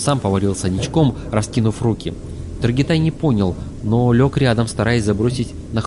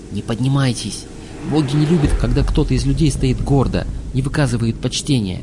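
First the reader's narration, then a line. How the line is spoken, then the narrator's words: Quiet grumble. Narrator (Russian): Мрак пробурчал негромко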